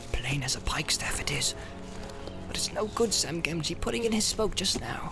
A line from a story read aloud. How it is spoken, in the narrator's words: Sam, who had been watching his master with great concern, muttered